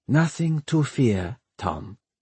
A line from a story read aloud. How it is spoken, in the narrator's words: Miss Fang murmured